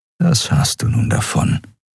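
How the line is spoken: Inner whisper. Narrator (German): flüsterte eine Stimme in seinem Kopf

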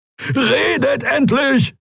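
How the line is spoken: Roaring shout. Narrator (German): brüllte Kero

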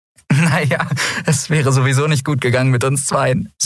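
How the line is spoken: Laughing. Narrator (German): sagte lachend

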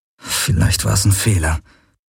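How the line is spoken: Murmured. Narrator (German): murmelte er

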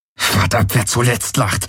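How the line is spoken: Hissed. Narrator (German): zischte Garland

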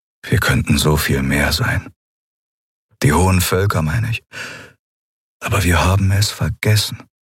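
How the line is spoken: Sad voice. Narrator (German): Er klang traurig, als er sagte

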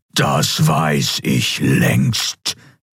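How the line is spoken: Thundering voice. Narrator (German): donnerte der Kaiser

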